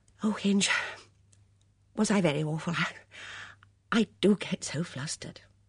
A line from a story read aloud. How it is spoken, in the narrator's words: Amy Murgatroyd said breathlessly